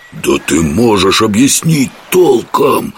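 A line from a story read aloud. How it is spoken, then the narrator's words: Hissed. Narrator (Russian): прошипел Жихарь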